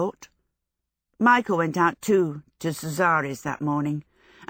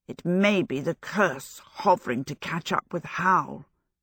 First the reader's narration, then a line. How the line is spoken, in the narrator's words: she sighed to the flowers